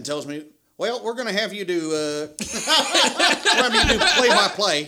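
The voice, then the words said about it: Imitates another person's voice. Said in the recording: “That's a good impersonation.”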